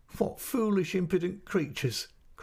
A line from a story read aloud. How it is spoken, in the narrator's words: cried my mother, laughing and covering her face